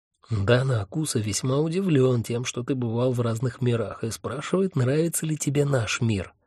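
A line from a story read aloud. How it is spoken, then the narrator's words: Sudden whisper. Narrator (Russian): внезапно зашептал Хехельф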